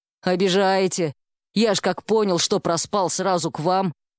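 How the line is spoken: Grumbled, male nurse. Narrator (Russian): пробурчал медбрат

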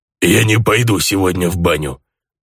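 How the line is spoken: Grumbling orc. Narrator (Russian): проворчал орк

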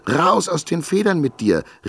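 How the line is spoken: Shouting at full voice. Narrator (German): rief sie aus voller Kehle

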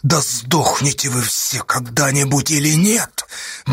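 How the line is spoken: Soundless pale-lipped whisper. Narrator (Russian): беззвучно прошептал Асташа белыми губами

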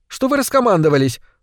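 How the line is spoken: Indignant question. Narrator (Russian): возмущенно спросила Яна

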